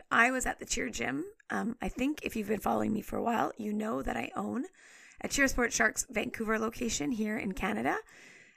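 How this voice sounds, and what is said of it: Rough, crackly hoarse voice. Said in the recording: “the voice is a bit rough today ... my voice is a little bit crackly today ... I was yelling and screaming all weekend”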